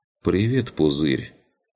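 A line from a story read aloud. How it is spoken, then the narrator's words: Calm, indifferent voice. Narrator (Russian): Спокойным, скорее даже равнодушным голосом произнесла лучница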